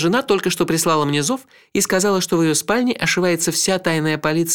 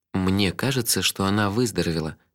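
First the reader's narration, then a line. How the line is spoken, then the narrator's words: Soft. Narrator (Russian): мягко сказал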